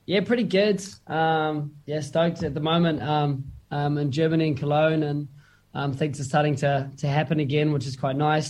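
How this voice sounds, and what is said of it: Tired, sleep-deprived voice. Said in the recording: “as you can tell by my voice. I haven't slept much”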